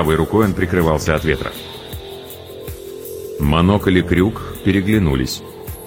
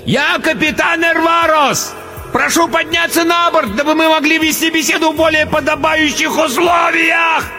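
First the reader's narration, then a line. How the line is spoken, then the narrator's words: Fat man roaring over blizzard. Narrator (Russian): проревел, перекрывая вой метели, толстяк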